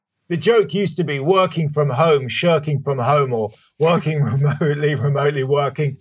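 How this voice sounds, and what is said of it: London English accent. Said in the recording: “my old home in London, where I'm from, as you can probably tell from my accent”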